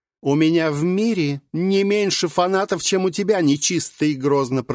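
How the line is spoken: Shouted. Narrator (Russian): прокричала Мария

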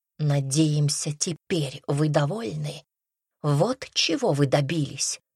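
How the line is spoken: Strangled whisper. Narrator (Russian): Одна сдавленным шепотом произнесла

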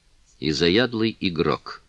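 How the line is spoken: Dry tone. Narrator (Russian): сухим тоном произнесла Маркиза

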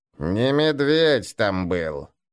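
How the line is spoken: Creaky old voice. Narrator (Russian): проскрипел старый гнуп

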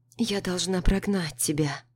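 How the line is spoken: Quiet. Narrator (Russian): говорю тихо

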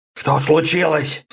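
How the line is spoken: Whisper. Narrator (Russian): шепнул Орда

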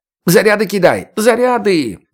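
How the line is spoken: Yelled. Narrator (Russian): завопил Эчимин

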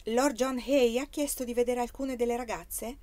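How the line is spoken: Relieved sigh, cautious reply. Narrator (Italian): Anna trasse un sospiro di sollievo e rispose con prudenza

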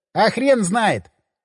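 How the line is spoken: Laughing. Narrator (Russian): он засмеялся

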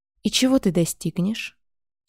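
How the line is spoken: Plain. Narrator (Russian): спросил лорд

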